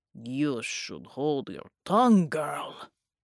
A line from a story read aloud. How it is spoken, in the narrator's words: he snarled